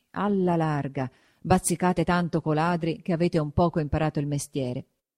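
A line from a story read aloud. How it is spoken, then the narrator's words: Muttering through teeth. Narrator (Italian): mormorava tra denti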